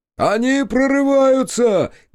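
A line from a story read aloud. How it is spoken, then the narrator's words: Shout. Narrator (Russian): крикнул Федот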